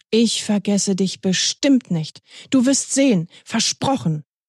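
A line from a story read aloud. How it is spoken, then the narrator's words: Powerful, startling voice. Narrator (German): sagte Till mit kraftvoller Stimme, so dass Bobo zusammenzuckte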